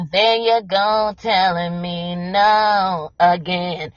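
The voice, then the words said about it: Imitates an R&B singer's voice. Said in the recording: “a bad R&B song by Keith Sweat singing ... no, I don't sound like that. That's my impression of Keith Sweat.”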